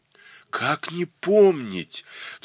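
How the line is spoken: Exclaiming with unusual fervor. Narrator (Russian): вскрикнул Скруг с небывалым жаром

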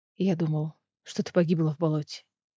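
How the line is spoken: Whisper. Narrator (Russian): прошептал он

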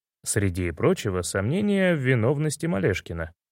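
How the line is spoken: Plain. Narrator (Russian): ответил я

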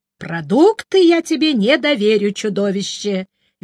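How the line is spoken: Cheerful. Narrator (Russian): весело сообщил он

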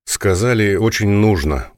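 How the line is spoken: Tired. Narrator (Russian): устало произнес Несвицкий

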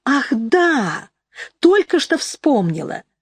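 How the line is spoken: Exclamation. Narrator (Russian): Анжела воскликнула

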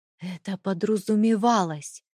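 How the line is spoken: Hissed through gritted teeth. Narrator (Russian): прошипел он сквозь зубы

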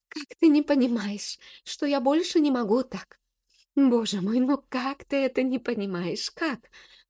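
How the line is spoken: Sobbing, clipped words. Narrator (Russian): рыдая, чеканит Эля

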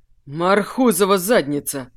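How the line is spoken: Breathless, emotional exclamation. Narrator (Russian): выдохнул Олег, не сдержав эмоций

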